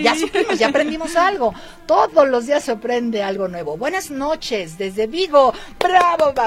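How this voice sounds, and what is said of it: Usual voice. Nothing is said of it.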